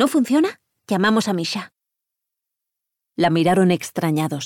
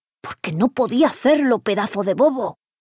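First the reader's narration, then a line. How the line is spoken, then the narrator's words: Hiss. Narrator (Spanish): siseó Omar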